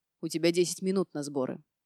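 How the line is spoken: Growled. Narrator (Russian): рыкнул

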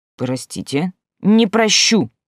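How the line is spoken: Angry explanation. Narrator (Russian): зло пояснила

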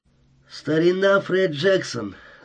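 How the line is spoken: Thin, husky voice. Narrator (Russian): заговорил он тоненьким, хрипловатым голосом

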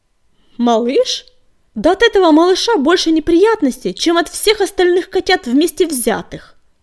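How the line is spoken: Shout. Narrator (Russian): заорал он

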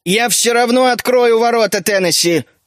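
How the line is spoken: Loud. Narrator (Russian): Громко сказал Геллинхорт

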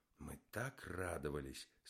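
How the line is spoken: Sad. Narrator (Russian): сказал Верховский грустно

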